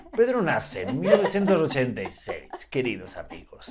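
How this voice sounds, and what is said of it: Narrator voice. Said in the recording (Spanish): “voz de narrador”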